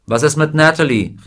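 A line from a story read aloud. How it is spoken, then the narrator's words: Someone calling out. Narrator (German): rief jemand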